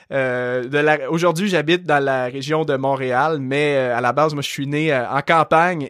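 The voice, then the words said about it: Light Québécois French accent. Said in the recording (French): “tu as un léger accent ... je suis québécois ... les gens au Québec ont un très fort accent ... c'est de là que j'ai hérité de mon bel accent”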